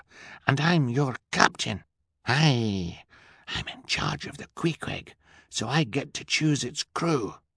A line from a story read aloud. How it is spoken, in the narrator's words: Fiona replied in a fierce whisper